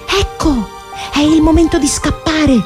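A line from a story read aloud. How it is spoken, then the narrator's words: Whispered. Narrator (Italian): bisbigliò Pinocchio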